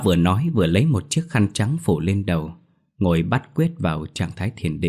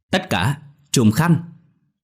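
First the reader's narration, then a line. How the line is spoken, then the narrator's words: Old man's loud shout. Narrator (Vietnamese): lão thét lớn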